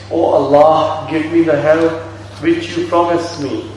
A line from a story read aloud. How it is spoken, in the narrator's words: He called out to his Lord